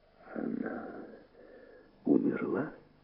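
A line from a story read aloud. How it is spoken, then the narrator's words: Whisper. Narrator (Russian): прошептал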